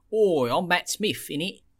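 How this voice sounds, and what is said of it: Mock British accent. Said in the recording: “making fun of the British accent”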